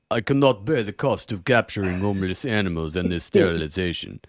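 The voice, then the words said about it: Put-on Russian accent. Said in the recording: “That's a Russian great Russian accent.”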